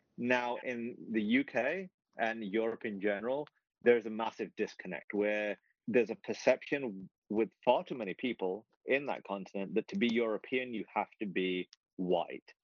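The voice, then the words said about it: British accent. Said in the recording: “being British and living here ... even though I have this accent”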